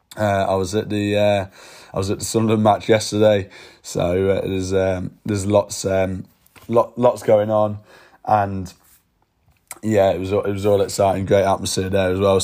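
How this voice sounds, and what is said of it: Hoarse, strained, fading voice. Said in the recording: “As you can tell, my voice is going.”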